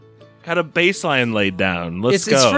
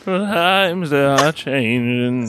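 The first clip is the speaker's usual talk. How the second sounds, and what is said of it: Sung impression, like a priest singing. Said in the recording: “Give me your best Bob Dylan impression... That sounded like a Catholic priest singing Bob Dylan”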